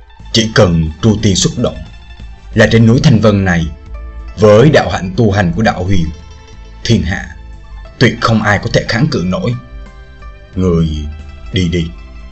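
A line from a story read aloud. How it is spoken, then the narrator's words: Old man speaking softly. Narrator (Vietnamese): Lão giả khe khẽ bảo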